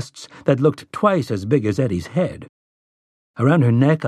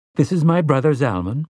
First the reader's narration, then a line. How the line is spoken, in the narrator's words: Zelia said, her tone oddly formal